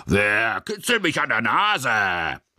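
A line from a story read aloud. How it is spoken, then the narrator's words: Loud roar. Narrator (German): brüllte laut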